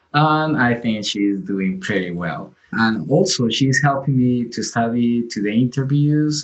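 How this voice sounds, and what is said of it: Colombian accent in English. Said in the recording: “my accent, my Colombian accent”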